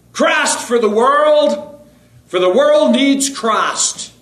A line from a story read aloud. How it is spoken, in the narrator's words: he shouted this